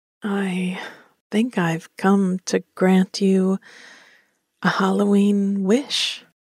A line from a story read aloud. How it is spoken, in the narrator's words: said, with a chuckle in my voice